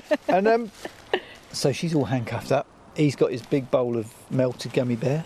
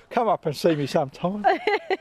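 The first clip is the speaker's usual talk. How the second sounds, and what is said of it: Imitates another person's voice. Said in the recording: “She's doing her best Mae West impression”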